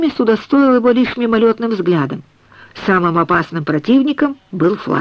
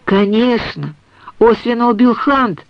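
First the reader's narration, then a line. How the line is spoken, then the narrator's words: Plain. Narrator (Russian): сказал Фред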